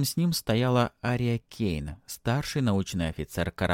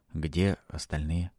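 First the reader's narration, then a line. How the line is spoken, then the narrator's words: Plain. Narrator (Russian): спросил Алексис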